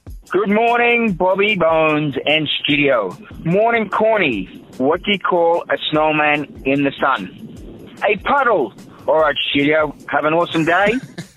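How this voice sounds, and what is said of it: Australian accent. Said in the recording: “left us a voicemail from Brisbane, Australia. ... Funnier with an accent.”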